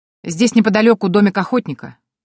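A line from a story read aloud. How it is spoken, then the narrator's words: Sudden shout, soldier. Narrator (Russian): вдруг крикнул один из солдат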